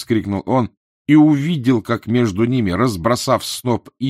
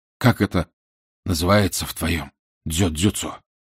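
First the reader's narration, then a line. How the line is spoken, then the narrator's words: Hoarse question. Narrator (Russian): хрипло спросил он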